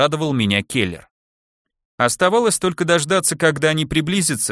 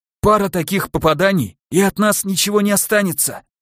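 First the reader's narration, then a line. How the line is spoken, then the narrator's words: Hoarse rasp. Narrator (Russian): прохрипел я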